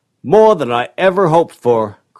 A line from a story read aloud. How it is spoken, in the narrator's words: cried Marshall